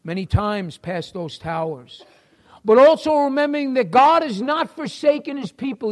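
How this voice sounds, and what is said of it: New York City accent. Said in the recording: “if you can recognize my accent, I am from New York City.”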